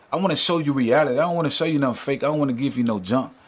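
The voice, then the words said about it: Southern American accent. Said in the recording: “You have a cool Southern accent ... you're a country boy”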